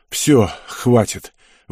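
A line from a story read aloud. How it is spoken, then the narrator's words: Breathless exhale. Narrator (Russian): выдохнул запыхавшийся Ник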